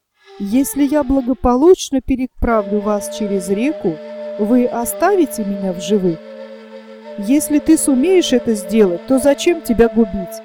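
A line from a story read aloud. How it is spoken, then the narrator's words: Plain, group reply. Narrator (Russian): ответили караванщики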